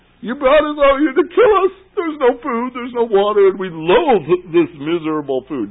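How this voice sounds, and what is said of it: Whiny complaining voice. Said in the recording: “You got to say that with that whiny voice.”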